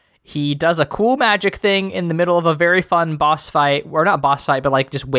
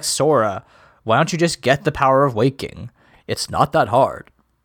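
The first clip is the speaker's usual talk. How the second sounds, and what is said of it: Impression of a game character's voice. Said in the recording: “Your impressions are getting better by the day. ... I don't think that was a good impression. ... I thought it was pretty good.”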